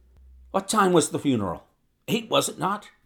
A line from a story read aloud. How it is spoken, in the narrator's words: he asked eagerly